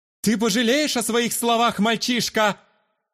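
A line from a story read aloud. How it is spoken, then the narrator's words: Shouting after someone. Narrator (Russian): крикнул мне в спину Иматирос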